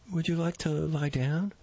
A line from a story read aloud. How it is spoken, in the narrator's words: asked timidly